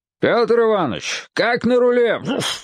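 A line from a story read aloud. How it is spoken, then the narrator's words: Shout choked by rain. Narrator (Russian): крикнул Крузенштерн и подавился дождем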